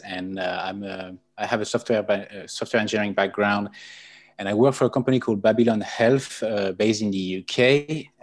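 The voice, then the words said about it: French accent. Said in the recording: “You can recognize the accent. I'm French.”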